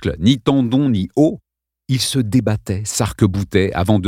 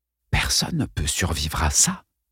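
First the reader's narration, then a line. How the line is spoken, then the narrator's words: Stunned whisper. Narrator (French): chuchota Kevin bouche bée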